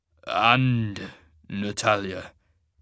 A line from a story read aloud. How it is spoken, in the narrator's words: Cain said, in a strangled voice